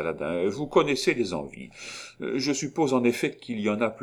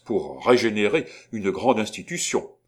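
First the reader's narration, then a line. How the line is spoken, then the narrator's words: Exclaimed. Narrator (French): s'écria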